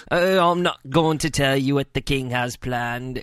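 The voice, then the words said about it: Mock British accent. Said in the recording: “Please do it in a British accent, please.”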